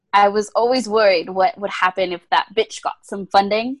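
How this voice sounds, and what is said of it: Imitates a character's accent. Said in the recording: “It has to be as accurate an accent as, James Marsters.”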